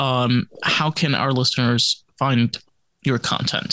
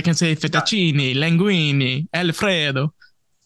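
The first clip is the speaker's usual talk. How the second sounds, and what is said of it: Thick put-on Italian accent. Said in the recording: “not be appropriating the accent ... it makes you sound real, real authentic and real organic ... Real thick, like olive oil.”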